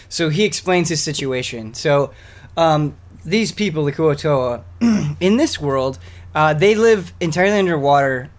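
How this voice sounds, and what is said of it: Slightly hoarse voice. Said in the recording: “My voice is already a little hoarse.”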